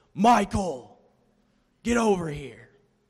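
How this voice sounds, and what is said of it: Deep, booming, scary shouting voice. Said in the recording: “this deep, booming voice ... scary voice”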